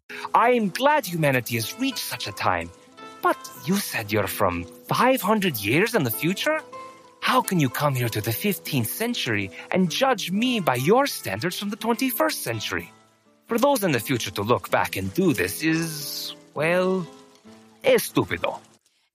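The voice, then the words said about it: Poorly performed put-on accent. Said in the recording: “this terrible voice actor and his accent”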